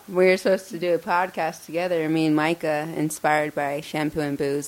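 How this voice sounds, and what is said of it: Oregon accent. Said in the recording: “my Oregon accent.”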